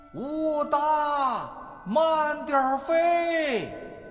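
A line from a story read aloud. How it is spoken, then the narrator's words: Calling out. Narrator (Chinese): 张天寿就会在后面喊着八哥的名字说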